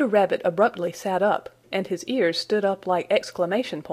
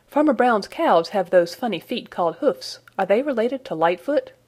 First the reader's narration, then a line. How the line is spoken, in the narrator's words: asked eagerly